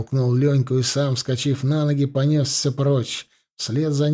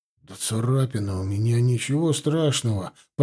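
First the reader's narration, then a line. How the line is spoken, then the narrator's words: Mumble. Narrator (Russian): пробормотал Иван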